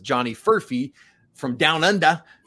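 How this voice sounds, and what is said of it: Poor put-on Australian accent. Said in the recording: “That's a terrible Australian accent”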